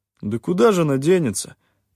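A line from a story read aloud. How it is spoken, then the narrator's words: Guilty mumble. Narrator (Russian): виновато промямлил один из них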